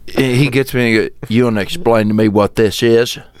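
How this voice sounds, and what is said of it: Imitates another person's accent. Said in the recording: “Do your dad's accent, though?”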